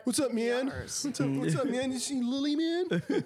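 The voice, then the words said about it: Stoned Cheech-and-Chong style voice. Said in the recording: “Is that how you talk now? ... That's ... high voice. ... He turns into fucking Cheech. ... He turns into Cheech and Chong.”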